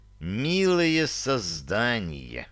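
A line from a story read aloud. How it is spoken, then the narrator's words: Indignant hiss. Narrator (Russian): Справившись, наконец, с законным негодованием, прошипел я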